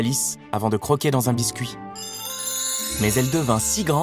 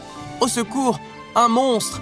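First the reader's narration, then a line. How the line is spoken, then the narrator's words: White rabbit exclaiming. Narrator (French): s'écria le lapin blanc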